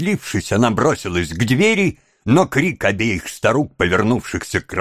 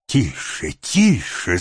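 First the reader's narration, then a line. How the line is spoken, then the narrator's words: Hissing old woman. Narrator (Russian): зашипела одна из старух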